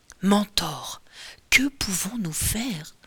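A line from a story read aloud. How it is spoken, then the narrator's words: Woman murmuring. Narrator (French): murmure la femme qui n'est autre que Pénélope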